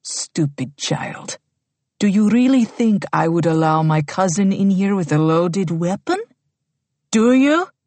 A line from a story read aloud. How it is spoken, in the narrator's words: in a slow and menacing tone says